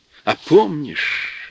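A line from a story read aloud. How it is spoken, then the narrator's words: Joyful question. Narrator (Russian): радостно спрашивал брат Дмитрий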